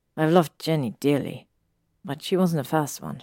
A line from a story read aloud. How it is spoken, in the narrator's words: he said calmly